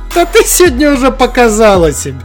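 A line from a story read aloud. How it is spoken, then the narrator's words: Young man laughing. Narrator (Russian): сквозь смех сказал парень в белой куртке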